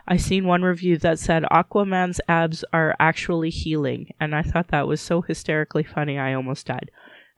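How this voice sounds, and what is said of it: Sick-sounding voice. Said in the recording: “you probably can hear it in my voice. I'm actually not well. ... now I'm sick.”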